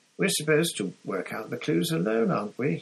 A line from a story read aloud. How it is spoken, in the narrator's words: He said, careful to keep his voice casual